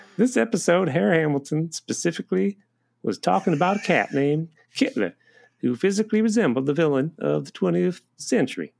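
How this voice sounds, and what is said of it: Imitates another person's voice. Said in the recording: “I keep going into your accent”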